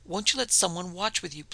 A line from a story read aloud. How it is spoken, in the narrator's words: pleaded Lady Menzies